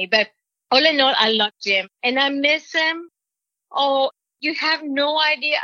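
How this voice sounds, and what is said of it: Mexican-accented English. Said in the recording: “He always makes fun of my accent... What does Mexican mean this? And how do you say pie in Mexico?”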